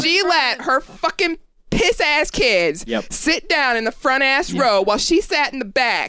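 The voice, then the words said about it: Strong regional accent comes through. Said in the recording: “my stupid accent's coming out”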